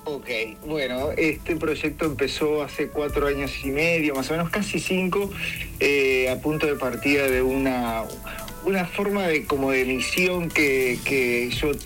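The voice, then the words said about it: Uruguayan Spanish accent. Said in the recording (Spanish): “Con ese acento, qué rico, uruguayo, uruguayo.”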